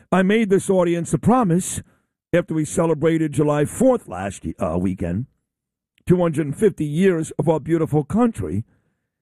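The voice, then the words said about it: Slightly hoarse, froggy voice. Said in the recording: “I've got a little bit of a frog in my throat.”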